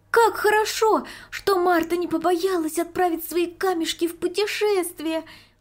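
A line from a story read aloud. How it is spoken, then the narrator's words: Exclamation. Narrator (Russian): воскликнула Марийка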